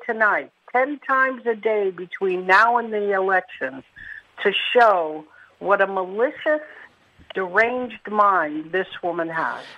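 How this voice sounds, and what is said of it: Mixed New York-Philadelphia accent. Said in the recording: “your accent's an interesting combination of New York and Philadelphia, actually.”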